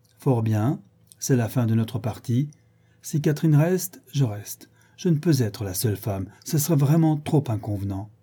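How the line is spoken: Cold resentment. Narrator (French): dit, d'un ton de froid ressentiment

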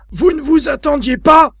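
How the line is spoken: Exclaiming. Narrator (French): s'écria-t-il

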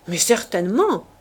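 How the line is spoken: Exclaiming, young man. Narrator (French): s'écria le jeune homme

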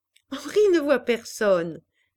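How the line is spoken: Laughing. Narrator (French): dit Pauline en riant

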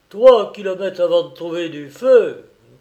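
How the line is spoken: Grumbling. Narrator (French): grommela celui-ci

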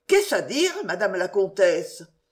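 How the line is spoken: Frightened exclamation. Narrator (French): s'écria avec effroi

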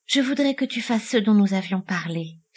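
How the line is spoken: Sad sigh. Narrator (French): soupira tristement Lucetta

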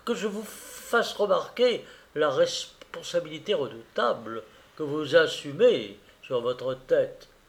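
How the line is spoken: Frightened stammering. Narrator (French): dit à son tour l'abbé, dont la frayeur accroissait le bégaiement

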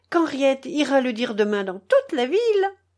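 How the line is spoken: Cheerful. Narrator (French): dit Geneviève gaiement

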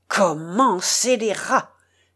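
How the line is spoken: Thundering exclamation. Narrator (French): s'écria d'une voix tonnante le contre-amiral

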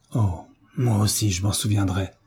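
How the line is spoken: Murmur trembling with rage. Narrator (French): murmura Frédéric d'une voix tremblante de rage

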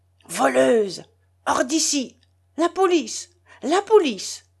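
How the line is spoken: Screaming. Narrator (French): hurla Madame Lippe-Wetzel

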